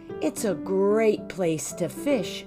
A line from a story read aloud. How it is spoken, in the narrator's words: sighed Papa